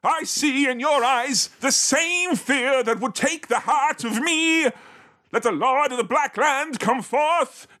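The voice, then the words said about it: Film character voice slipping into Irish. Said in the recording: “Now I've become Irish... There's of little Irish twang. in there”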